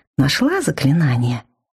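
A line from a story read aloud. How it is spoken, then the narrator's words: Exaggeratedly gentle question. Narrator (Russian): преувеличенно ласково поинтересовался он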